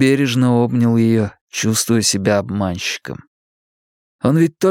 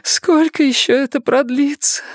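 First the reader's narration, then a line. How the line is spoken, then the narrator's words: Sobbing. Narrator (Russian): всхлипывала она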